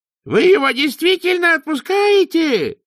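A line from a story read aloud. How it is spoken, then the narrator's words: Howling dwarf. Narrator (Russian): взвыл гном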